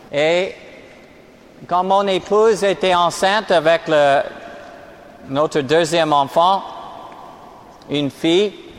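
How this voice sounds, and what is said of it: American accent speaking French. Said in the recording (French): “Je suis américain d'origine, comme on entend mon accent.”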